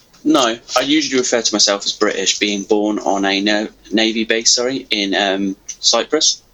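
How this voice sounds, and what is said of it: English accent. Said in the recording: “I was raised in England, hence the accent”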